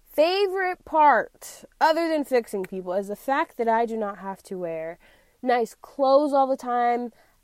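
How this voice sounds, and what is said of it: Yelling, loud excited speech. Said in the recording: “I'm yelling. I know I am yelling.”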